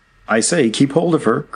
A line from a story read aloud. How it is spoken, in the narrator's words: cried Jack Ryan